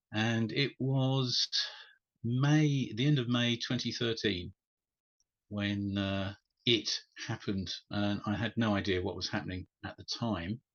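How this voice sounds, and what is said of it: British (UK) accent. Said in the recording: “As people can probably tell from my accent, I'm in the UK.”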